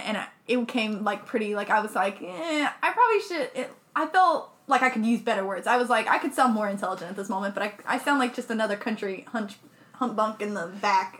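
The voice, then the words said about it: Rural country accent. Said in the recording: “people already assume I'm a country bumpkin just because of my accent”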